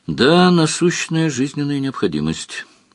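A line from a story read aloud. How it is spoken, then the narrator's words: Sigh. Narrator (Russian): вздохнул Сварог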